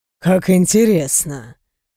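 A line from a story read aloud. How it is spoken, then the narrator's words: Man's amused snort. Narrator (Russian): Хмыкнул мужчина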